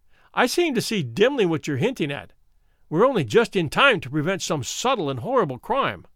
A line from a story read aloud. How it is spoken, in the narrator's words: I cried